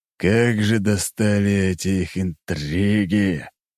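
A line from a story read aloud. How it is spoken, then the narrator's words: Old man's growl. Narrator (Russian): прорычал старик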